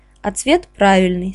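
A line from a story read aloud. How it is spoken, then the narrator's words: Plain. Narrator (Russian): сказал он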